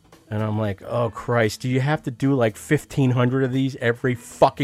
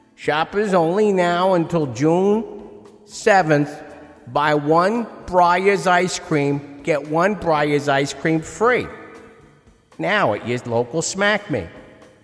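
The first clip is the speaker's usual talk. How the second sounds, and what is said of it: Put-on New Jersey PA announcer voice. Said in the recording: “a real healthy New Jersey accent. They get on the damn PA”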